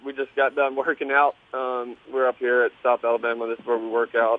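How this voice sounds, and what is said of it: Slightly out of breath, congested. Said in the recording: “I'm a little out of breath. ... I got a little bit of a cold and stuffiness”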